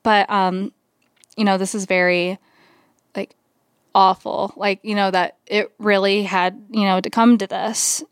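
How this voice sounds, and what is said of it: Choked-up, emotional voice. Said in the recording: “I'm getting a little choked up right now”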